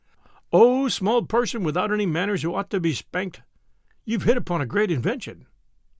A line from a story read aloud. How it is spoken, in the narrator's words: the head chief of the tribe of Tegumai cried and said and sang